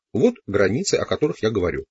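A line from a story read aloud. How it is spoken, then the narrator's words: Plain. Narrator (Russian): сказал он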